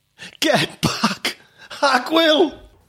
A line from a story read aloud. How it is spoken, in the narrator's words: the victim, a fat gangster with a cigar stub permanently in his mouth, shouted